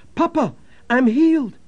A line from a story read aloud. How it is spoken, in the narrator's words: the child awoke and cried